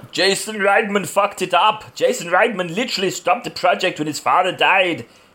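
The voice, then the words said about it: Imitates another person's voice. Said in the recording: “you've got a good Schwarzenegger impression”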